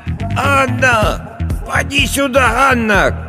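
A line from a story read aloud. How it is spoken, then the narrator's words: Old woman shouting through window. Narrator (Russian): кричала старая Агафья в завешенное пожелтевшим тюлем окно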